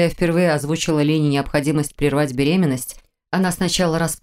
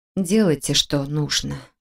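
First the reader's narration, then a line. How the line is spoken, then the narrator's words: Flat colorless voice. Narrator (Russian): бесцветным голосом сказала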